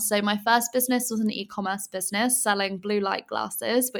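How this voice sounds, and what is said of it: English accent. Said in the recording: “I'm originally from England, as you can probably tell by my accent”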